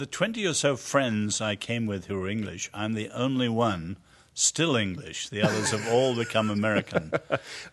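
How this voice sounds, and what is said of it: Mid-Atlantic English-American accent. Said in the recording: “accent's s- not actually very English. I mean, the English think I'm American. Americans think I'm English. I call it mid-Atlantic.”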